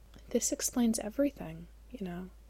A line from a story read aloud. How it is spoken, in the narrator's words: Miles said quietly